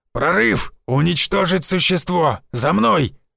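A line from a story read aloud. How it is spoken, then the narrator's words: Gruff bark. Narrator (Russian): рявкнул бородатый мужик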